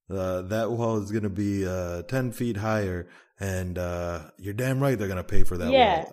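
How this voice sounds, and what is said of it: Imitates another person's voice. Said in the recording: “I can't do a Donald Trump impression.”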